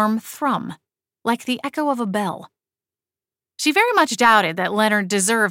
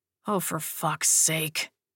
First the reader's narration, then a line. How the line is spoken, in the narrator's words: he grumbled